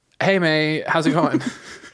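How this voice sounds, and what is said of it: Imitates another person's voice. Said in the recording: “doing a good impression? ... That is like uncanny. ... Spot on.”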